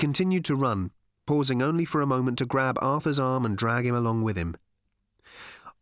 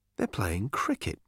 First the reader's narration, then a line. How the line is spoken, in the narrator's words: muttered Arthur